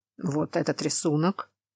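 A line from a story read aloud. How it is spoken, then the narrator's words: Muttered. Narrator (Russian): пробормотал Тамаш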